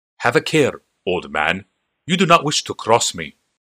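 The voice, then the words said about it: Clipped fantasy Argivian accent. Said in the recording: “in the clipped accent of an Argivian.”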